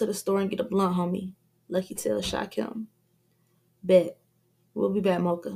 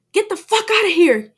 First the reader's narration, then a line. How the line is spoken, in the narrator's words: he yells repeatedly